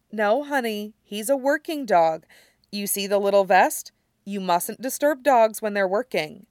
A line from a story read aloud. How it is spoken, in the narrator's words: her mother says